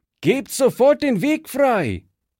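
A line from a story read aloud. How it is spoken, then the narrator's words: Calling out. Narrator (German): rief Fritz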